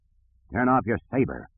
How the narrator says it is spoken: commanded in a rough voice

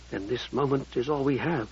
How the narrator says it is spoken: whispered

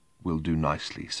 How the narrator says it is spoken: said in a barely audible whisper from between dry lips

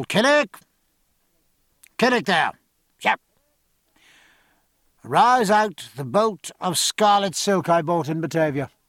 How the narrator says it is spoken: raising his voice to its usual pitch, called

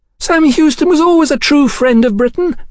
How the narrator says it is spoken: Sybil shrieked into the crowd's upturned faces

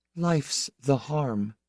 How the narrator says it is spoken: Laura said quietly, dryly

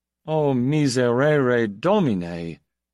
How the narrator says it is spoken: Brelavi moaned to him

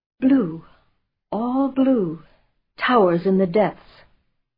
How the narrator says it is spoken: said in a whistling whisper

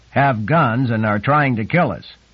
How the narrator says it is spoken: Troy said in a loud voice

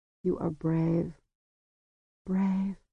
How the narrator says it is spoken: she murmured

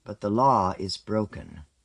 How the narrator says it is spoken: Agat said, his hoarsened voice cutting across the murmur of hope and jubilation

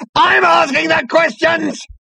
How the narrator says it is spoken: howled Number Two, his body quaking with apoplectic fury

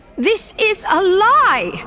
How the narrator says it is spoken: Varish howled over the din

